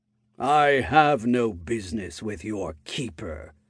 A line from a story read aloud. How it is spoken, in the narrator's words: the head said, in a grumbling tone